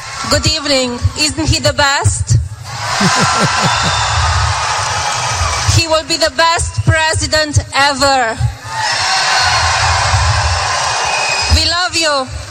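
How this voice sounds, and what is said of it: Eastern European accent. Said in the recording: “Don't you love that accent? That's a great accent... there's something sexy about that East European accent”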